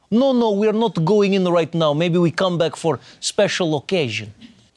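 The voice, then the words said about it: Mock Russian accent. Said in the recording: “anybody with a Russian accent”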